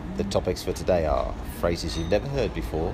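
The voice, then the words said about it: Put-on accent. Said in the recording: “the accent I'm putting on at the moment”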